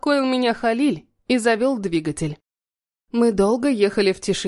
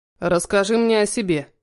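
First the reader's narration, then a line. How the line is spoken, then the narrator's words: Commanding request. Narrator (Russian): попросил он приказным тоном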